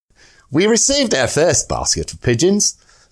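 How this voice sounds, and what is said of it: Put-on Durham accent. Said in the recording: “your best Durham accent ... a major from the Durham Light Infantry, so I shall do an appropriate accent”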